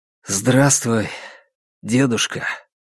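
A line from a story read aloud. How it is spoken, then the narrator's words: Quiet voice. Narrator (Russian): произнес он тихим голосом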